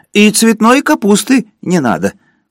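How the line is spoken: Shouted. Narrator (Russian): крикнул Горбовский

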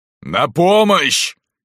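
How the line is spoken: Shout, then coughing. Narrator (Russian): крикнул Спел и закашлялся от пыли

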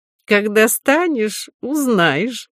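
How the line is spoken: Laughing. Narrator (Russian): засмеялся князь

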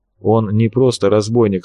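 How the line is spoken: Calm firm interruption. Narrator (Russian): спокойно, но твердо перебил Федорович

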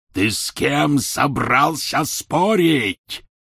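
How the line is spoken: Roar. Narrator (Russian): взревел Гарри

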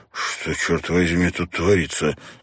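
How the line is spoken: Strained. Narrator (Russian): с трудом выдавил мужчина

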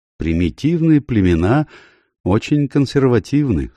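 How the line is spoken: Dry. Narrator (Russian): сухо заметил майор Деспорт

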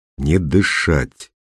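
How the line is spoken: Quiet command. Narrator (Russian): тихо приказал Костя

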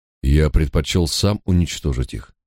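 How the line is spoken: Plain. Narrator (Russian): ответил я

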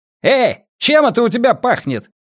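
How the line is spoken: Barking shout. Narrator (Russian): гаркнул полицейский

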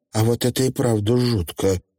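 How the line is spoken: Quiet remark. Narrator (Russian): негромко заметил дальний умысел

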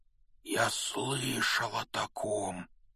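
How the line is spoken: Strained, choked voice. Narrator (Russian): произнес он сдавленным голосом

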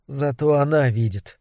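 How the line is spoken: Whisper. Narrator (Russian): шепотом сказала Сюзанна

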